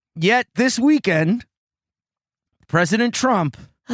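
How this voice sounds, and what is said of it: Usual voice. Nothing is said of it.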